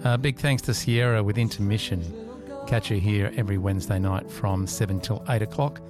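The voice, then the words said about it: Husky, low voice. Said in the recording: “got my husky, sexy voice on again tonight”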